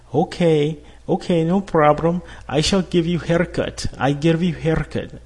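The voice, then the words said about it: Bad put-on Russian accent. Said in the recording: “That's probably the horrible, you know, Russian accent I can make right now”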